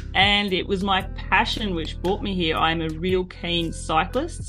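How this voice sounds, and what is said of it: Australian accent. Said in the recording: “As you can hear from my accent, I am Australian”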